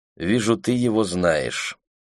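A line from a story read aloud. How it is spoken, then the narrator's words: Dry. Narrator (Russian): сухо сказала Роуз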